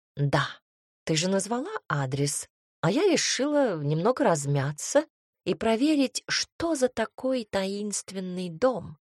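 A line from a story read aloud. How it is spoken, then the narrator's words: Plain. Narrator (Russian): ответила пушистая проказница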